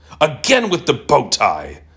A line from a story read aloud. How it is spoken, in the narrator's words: I shouted